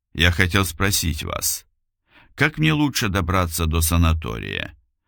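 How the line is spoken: Calm. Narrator (Russian): спокойно сказал Илюшин

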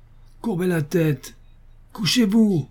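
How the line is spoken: Shouting. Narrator (French): criait Paul

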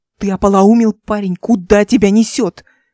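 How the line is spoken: Hiss. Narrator (Russian): прошипел он

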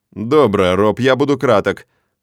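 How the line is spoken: Stern and fast. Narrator (Russian): произношу строго и быстро

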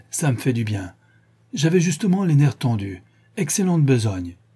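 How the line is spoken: Exclaimed. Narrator (French): s'écria-t-il

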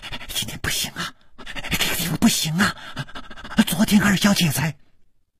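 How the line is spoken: Cut off mid-sentence. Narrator (Chinese): 还没有说完，就好像被什么东西给堵住了

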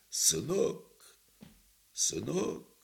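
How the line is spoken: Strangled, repeating voice. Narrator (Russian): он сдавленным голосом твердил

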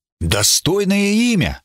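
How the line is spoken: Delighted exclamation. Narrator (Russian): воскликнул я с восторгом

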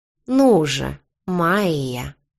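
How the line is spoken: Savoring drawl. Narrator (Russian): протянул он, перекатывая имя на языке как конфету

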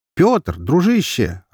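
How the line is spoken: Joyful smiling greeting. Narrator (Russian): радостно улыбнулся я

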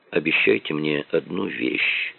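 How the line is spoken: Quiet request. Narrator (Russian): тихо попросил он

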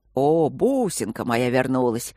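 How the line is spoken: Loud drunken roar. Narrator (Russian): на всю залу проревел уже изрядно захмелевший хозяин дома

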